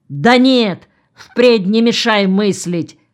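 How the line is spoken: Barked. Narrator (Russian): рявкнул начальник

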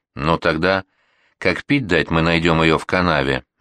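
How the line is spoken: Grim declaration. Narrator (Russian): мрачно заявил сержант

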